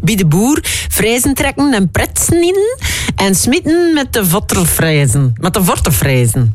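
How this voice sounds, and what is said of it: Bad imitation of West Flemish accent. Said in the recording (Dutch): “Sorry alle West-Vlamingen voor mijn accent ... mijn slechte imitatie”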